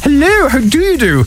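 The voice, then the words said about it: Posh telephone voice. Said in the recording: “put on your best telephone voice ... maybe I'm just a sucker for posh voices”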